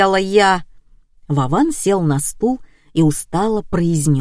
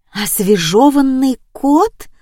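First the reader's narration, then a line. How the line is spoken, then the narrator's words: Whisper. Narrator (Russian): прошептала Томочка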